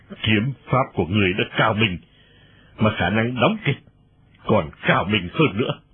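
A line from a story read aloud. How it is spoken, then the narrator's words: Cold sneering. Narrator (Vietnamese): Nhạc Bất Quần cười nhạt nói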